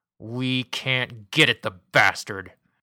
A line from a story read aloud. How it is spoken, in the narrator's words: growled Hoover, his fists clenched, his face glowing bright red